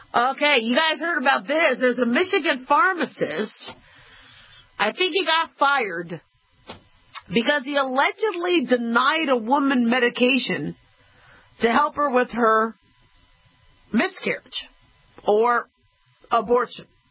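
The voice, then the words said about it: Slow Southern American accent. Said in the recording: “I think the southern accent really delineates what we're saying ... when you speak a little more southern ... I've also speak a little slower, just like that”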